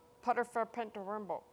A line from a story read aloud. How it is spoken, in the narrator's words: mumbled Horrid Henry